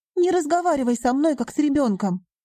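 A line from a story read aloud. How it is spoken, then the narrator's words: Sharp bark. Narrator (Russian): рявкнула Риона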